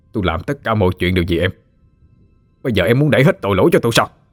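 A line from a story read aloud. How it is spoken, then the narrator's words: Angry shout. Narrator (Vietnamese): Lúc đó Phú Quang đang giận dữ, hắn quát lên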